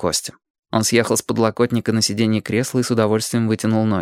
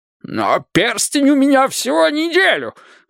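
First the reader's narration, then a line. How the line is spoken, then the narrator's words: Shrieked. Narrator (Russian): взвизгнул Борис Ильич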